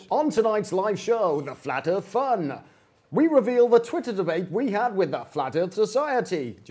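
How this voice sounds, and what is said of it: TV announcer voiceover voice. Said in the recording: “Do your MTV voice.”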